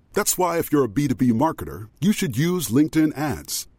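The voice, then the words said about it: Very deep voice. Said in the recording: “As a person with a very deep voice”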